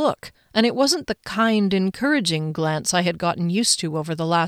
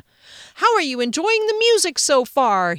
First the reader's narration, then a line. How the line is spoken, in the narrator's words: cried, and the cheers and feet stamping were thunderous